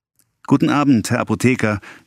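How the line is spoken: Calling out. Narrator (German): rief Guillaume

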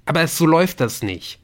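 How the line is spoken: Called out. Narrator (German): rief Nick

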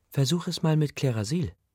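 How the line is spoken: Gentle. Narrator (German): sagte sie sanft

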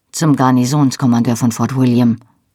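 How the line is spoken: Plain. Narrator (German): sagte er

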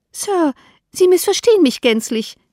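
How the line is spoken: Calling out. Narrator (German): rief Mrs

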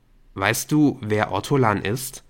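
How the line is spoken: Plain. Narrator (German): fragte er

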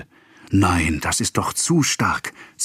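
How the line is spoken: Hissing. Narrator (German): zischelte Madame Caron

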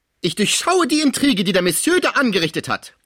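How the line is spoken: Angry mother shouting. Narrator (German): schrie die wütende Mutter

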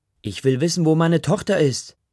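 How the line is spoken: Mother screaming. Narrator (German): schreit Ma

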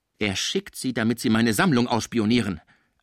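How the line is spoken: Sharp, suspicious reply. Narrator (German): antwortete der Kranke scharf und misstrauisch

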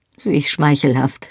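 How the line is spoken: Dry. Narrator (German): sagte trocken

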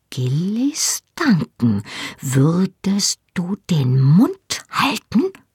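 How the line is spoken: Embarrassed hiss. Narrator (German): zischte mit brennendem Gesicht

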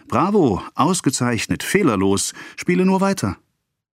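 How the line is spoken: Calling. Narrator (German): rief

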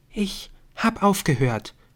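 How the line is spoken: Whispered. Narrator (German): flüsterte sie

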